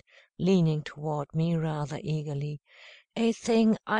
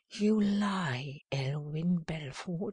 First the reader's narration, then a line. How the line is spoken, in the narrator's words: breathed blissfully